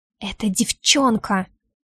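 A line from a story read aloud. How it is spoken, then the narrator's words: Angry whisper. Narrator (Russian): шепчу зло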